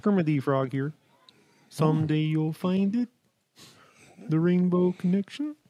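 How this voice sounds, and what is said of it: Kermit the Frog voice impression. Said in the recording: “your best impression ... It's Kermit the Frog.”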